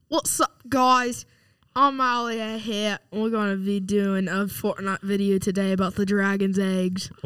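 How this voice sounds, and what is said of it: Imitates a YouTuber's voice. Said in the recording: “This is his Ali A YouTuber impression ... He sounds like him.”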